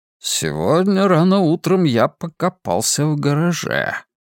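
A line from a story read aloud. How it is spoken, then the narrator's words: Very mysterious tone. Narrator (Russian): завел он речь очень таинственным тоном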